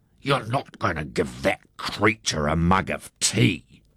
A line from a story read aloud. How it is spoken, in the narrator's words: Harry Wakatipu hissed